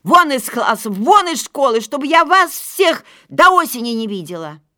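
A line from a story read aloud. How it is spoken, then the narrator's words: Teacher shouting angrily. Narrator (Russian): классная руководительница, увидев все это безобразие, крикнула нам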